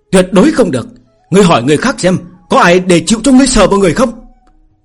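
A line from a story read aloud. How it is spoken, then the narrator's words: Loud speech. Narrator (Vietnamese): Phương Hành lớn tiếng nói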